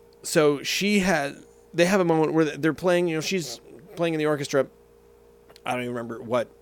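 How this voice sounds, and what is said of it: Usual voice. Nothing is said of it.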